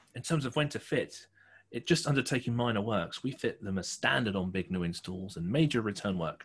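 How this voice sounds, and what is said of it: Put-on accent while reading aloud. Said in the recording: “what are you doing with the accent? ... This is my reading from someone else's perspective voice.”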